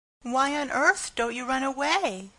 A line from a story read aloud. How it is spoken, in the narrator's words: exclaimed the horrified Pigling